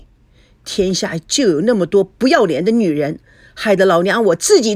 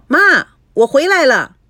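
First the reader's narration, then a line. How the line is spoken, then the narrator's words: Calling out for attention. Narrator (Chinese): 菲菲 想引起妈妈的注意，喊道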